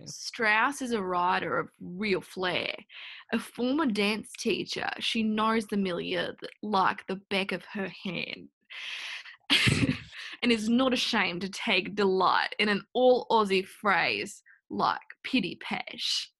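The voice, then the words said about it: Put-on Australian accent. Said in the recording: “read some of these reviews in an Australian accent ... it is so bad these days ... No, it's amazing.”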